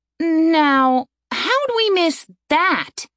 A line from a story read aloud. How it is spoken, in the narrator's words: Aaron asked indignantly